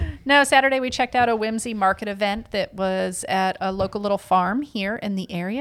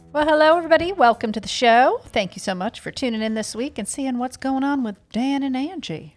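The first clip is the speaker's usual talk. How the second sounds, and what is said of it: Put-on Southern American accent. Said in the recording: “you got like a southern accent all of a sudden ... maybe the southern accent was appropriate”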